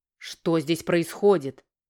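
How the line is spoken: Gruff, displeased bark. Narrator (Russian): рявкнул недовольный король

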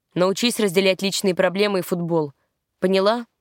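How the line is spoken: Grim, harsh question. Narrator (Russian): спросил мрачным и жестким тоном

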